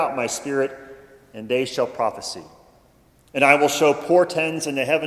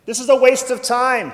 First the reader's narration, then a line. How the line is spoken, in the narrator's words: cried